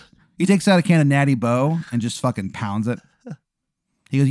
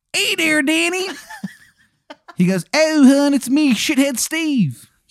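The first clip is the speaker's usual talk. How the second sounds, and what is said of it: Bad put-on Maryland accent. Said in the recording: “horrible Maryland accent. Like it is bad. ... His accent is horrendous.”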